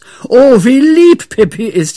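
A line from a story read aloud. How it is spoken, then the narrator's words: Group shouting. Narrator (German): schrien sie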